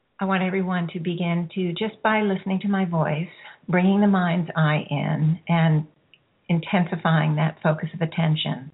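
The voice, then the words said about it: Slightly hoarse, throaty voice. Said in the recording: “I've got a little frog in my throat”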